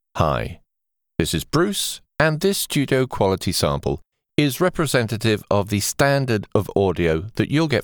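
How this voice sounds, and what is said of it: Neutral English accent. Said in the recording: “My accent would be described as neutral English”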